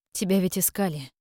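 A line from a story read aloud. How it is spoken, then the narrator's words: Quiet. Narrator (Russian): тихо проговорила Леона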